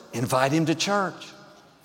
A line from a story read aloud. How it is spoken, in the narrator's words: she heard that whisper